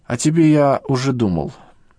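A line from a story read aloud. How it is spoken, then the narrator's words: Calm. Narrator (Russian): произнес спокойно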